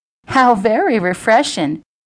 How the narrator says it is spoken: Jilly giggled

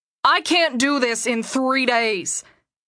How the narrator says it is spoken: Gabriel was nearly shouting at Luke

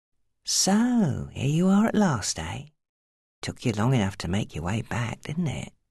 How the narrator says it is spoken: he said in the softest tone that made her shudder

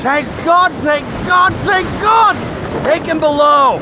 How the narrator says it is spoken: shouted Johnny at a sailor

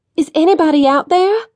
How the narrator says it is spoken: cried

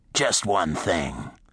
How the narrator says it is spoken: Slater added coldly

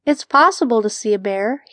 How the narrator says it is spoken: chuckled

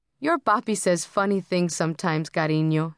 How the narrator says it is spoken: she said

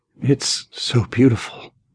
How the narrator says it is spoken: Paul whimpered

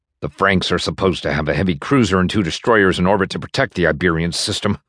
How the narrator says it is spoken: a bitter voice snarled

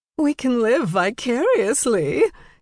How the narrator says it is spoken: Jane giggled

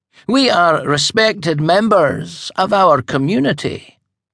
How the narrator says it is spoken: the Grand High Witch said haughtily

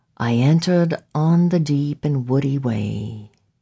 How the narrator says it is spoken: he said softly

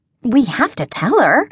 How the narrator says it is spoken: I exclaimed

